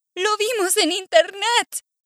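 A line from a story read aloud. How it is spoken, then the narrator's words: Group shouting. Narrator (Spanish): gritan todos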